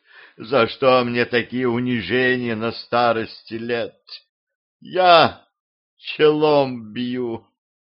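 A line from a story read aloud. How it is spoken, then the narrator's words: Sighing, dictating. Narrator (Russian): Он вздохнул и продолжил диктовать письмо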